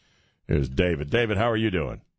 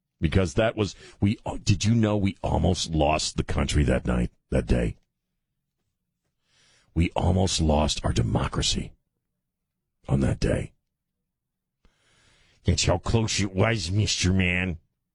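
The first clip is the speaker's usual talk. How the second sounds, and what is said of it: Imitates another person's voice. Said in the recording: “worst Nancy Pelosi imitation I've ever done”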